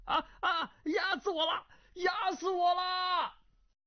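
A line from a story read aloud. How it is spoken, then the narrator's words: Panicked breathless shouting. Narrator (Chinese): 气息奄奄，惊骇之下，大声叫嚷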